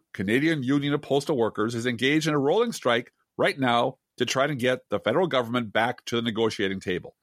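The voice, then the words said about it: Slipping into a Canadian accent. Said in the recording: “I'm trying to not let the Canadian accent into my voice, and I'm failing miserably.”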